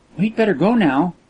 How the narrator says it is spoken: said Kismine sweetly

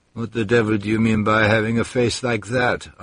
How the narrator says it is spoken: answered the Serbian calmly

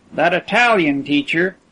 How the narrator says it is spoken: exclaimed Percy

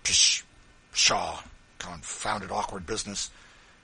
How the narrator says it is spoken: grumbling to himself

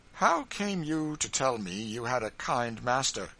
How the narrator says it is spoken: he suddenly exclaimed, gulping down very resolutely some kind of rising in his throat

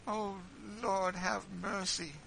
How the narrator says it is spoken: said Eliza, sobbing

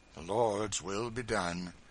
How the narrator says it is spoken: said Tom, sighing heavily

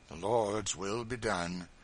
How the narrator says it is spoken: said Tom, sighing heavily

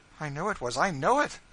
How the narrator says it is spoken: said she wildly

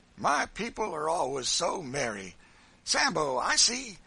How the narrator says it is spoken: he said, speaking approvingly

